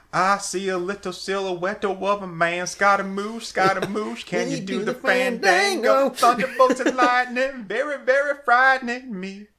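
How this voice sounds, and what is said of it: Singing with a country twang. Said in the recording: “using the twang”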